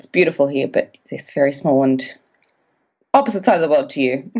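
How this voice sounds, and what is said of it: Australian accent. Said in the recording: “where your beautiful accent is coming from ... I am an Australian”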